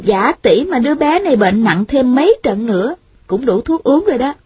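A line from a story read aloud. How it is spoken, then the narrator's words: Smiling. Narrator (Vietnamese): Thanh Thanh mỉm cười nói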